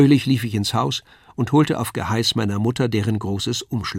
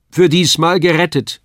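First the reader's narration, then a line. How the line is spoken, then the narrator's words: Father calling out. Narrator (German): rief mein Vater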